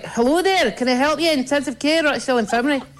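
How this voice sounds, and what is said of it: Put-on Scottish accent. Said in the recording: “daring each other that day on the unit to answer the phone in Scottish ... trying to be Scottish”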